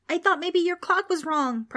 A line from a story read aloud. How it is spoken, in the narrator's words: Preston shouted back